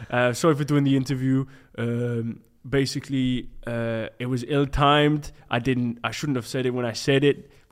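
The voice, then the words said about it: Deep Belgian-French accented impression. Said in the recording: “he's got a really deep voice, hasn't he? It's like quite Belgian, French.”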